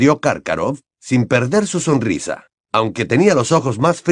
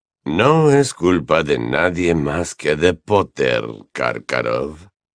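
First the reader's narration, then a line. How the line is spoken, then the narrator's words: Honeyed, silky voice. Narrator (Spanish): intervino Snape con voz melosa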